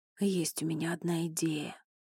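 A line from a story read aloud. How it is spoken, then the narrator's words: Quiet. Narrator (Russian): тихо сказал Элай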